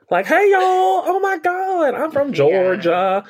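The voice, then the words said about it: Put-on Southern Georgia accent. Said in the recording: “her accent work ... she's from Macon, Georgia”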